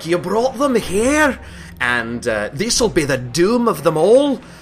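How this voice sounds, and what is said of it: Shouted dwarf voice, rough Scottish accent. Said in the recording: “the typical dwarf voice that I'm terrible at ... I'm very bad at Scottish accents ... It's not bad.”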